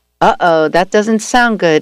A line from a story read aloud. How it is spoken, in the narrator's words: I said